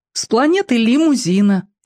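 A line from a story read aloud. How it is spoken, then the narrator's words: Cheerful, sincere boy's voice. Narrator (Russian): честно и весело говорил мальчик Антошка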